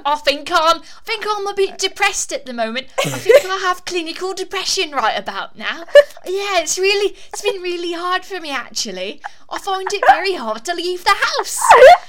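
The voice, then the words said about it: Put-on Cockney accent. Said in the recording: “talk about it in an accent, preferably a Cockney accent ... I do that too.”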